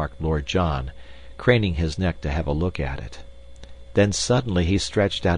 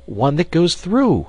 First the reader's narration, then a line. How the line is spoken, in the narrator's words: I cried